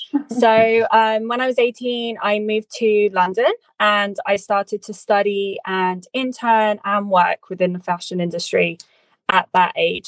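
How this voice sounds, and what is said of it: English accent. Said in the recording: “my hometown of Oxford, which is in England. As you can tell by my accent, that's where I grew up”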